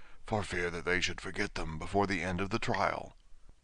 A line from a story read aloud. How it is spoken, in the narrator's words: the Gryphon whispered in reply